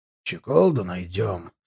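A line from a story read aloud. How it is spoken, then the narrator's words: Grumbling. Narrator (Russian): проворчал он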